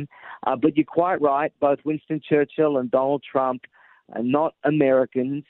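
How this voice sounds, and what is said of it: Australian accent. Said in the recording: “my accent didn't fool you ... I am originally from Australia”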